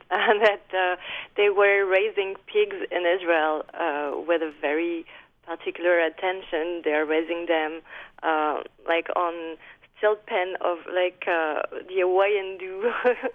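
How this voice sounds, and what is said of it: French-accented English. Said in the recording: “I read in a French newspaper, as you can hear with my accent”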